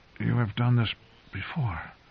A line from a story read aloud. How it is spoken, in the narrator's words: muttered Jaime weakly